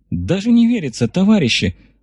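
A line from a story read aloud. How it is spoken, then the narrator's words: Joyful sigh. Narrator (Russian): радостно вздохнула та, что назвалась именем богини Победы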